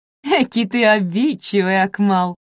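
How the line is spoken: Laughing. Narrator (Russian): засмеялась Марковна

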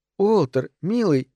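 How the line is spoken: Soft. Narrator (Russian): мягко сказала Этель

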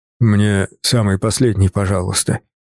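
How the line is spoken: Deliberately low mumble. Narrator (Russian): пробурчал я, стараясь говорить как можно ниже

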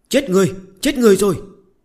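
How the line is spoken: Boy yelling loudly. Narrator (Vietnamese): một thằng nhóc gầy như que củi hét toáng lên

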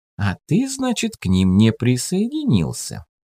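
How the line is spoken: Snide comment. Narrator (Russian): ехидно прокомментировала его слова Ирка Серова

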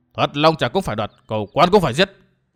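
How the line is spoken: Firm, gritted voice. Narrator (Vietnamese): Hồng Tố Tử kiên quyết gằn giọng

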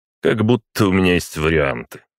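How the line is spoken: Wry snort. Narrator (Russian): хмыкнул Путилин

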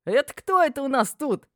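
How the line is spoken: Loud exclamation. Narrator (Russian): воскликнула громким голосом

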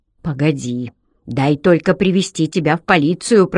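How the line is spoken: Growl. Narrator (Russian): прорычал он

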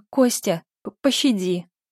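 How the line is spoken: Terrified stammering gasp. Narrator (Russian): заикаясь, выдохнула насмерть перепуганная менталистка

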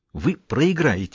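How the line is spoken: Angry. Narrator (Russian): сердито ответил Геддес

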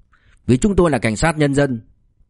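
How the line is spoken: Angry. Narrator (Vietnamese): Lý Duy Chiết tức giận

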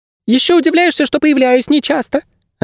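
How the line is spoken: Offended squeak. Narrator (Russian): обиженно пропищал проводник

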